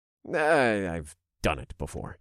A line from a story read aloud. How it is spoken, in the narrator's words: I said in a vague tone